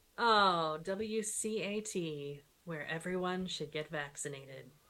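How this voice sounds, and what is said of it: Smooth public radio announcer voice. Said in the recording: “I used my NPR voice on that”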